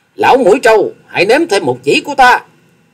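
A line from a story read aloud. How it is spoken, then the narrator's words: Excited thunderous shout. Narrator (Vietnamese): Hoa Sĩ Kiệt càng phấn chấn tinh thần, thét lên rồi tiếng thét vang như sấm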